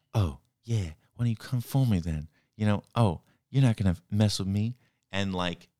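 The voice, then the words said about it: Imitates another person's voice, poorly. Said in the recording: “That was terrible black voice. By ... I can't do an impression of Jamie Foxx. He's, you know, I was trying to do like cool Jamie Foxx impression”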